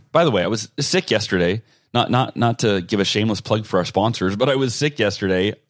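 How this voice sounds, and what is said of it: Slightly stuffy, congested voice. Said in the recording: “I'm getting over being sick in case I sound a little stuffy.”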